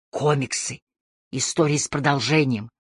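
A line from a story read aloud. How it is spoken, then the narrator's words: Conspiratorial whisper. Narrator (Russian): он заговорщическим шепотом сказал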